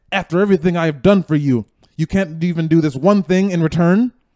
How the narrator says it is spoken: He got angry at me and yelled

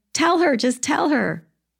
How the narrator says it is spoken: you'd be yelling

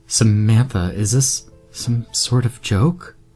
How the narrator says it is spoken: Amber asked nervously

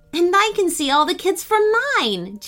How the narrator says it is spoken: Jane exclaimed

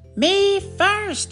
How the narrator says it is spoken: cried Pinkerton

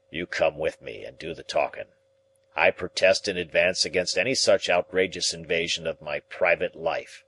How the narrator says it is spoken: he grumbled

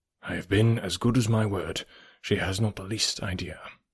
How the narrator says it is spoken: heard him add, in a lower tone

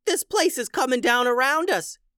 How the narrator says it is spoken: yelled Bob

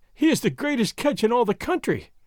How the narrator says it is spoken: Doña Catalina was wailing

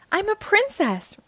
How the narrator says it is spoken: Ruby exclaims

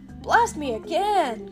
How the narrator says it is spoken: Garfield shouted

